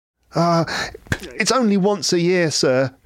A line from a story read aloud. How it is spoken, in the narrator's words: pleaded Bob